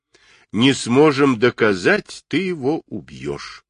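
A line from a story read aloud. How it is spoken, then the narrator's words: Calm reply. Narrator (Russian): спокойно ответил Гуров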